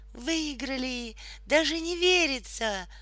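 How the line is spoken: Surprised exclamation, mother. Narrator (Russian): удивленно воскликнула мама

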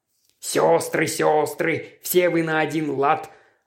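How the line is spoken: Snapped. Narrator (Russian): огрызнулся он

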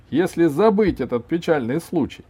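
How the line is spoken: Cheerful agreement. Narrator (Russian): весело согласился Иван

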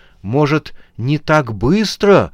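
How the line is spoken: Pleading. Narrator (Russian): взмолилась она

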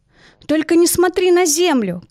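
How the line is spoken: Shouting. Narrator (Russian): кричала Яна

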